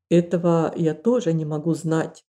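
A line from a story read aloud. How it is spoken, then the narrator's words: Plain. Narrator (Russian): ответил священник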